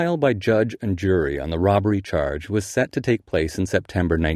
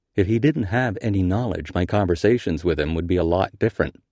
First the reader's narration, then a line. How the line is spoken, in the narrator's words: says Bernard